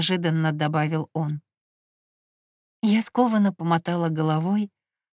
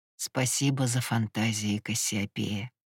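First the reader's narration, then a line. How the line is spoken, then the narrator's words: Intoxicated smiling whisper. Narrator (Russian): с опьяненной улыбкой прошептал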